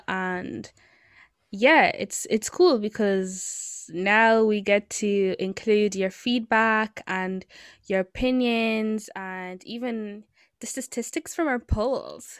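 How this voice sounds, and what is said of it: American accent. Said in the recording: “she has an American accent right now”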